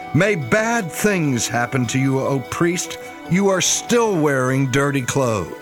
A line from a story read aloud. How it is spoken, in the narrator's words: Malice shouted